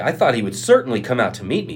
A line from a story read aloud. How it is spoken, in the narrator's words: he said